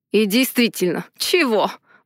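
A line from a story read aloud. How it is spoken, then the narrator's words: Snort, then sudden laugh. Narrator (Russian): хмыкнул и вдруг рассмеялся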